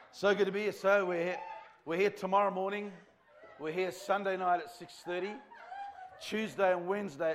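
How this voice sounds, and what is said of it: Australian accent. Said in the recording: “I put on an Australian accent”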